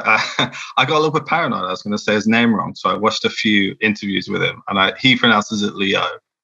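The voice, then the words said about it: English accent. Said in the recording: “my awful English accent”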